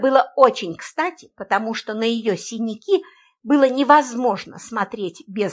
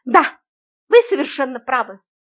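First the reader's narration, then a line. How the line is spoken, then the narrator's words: Exclaiming. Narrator (Russian): воскликнула она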